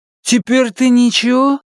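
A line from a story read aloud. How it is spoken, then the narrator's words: Dead man asking. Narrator (Russian): спросил мертвец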